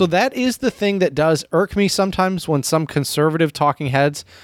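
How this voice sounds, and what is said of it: Usual voice. Nothing is said of it.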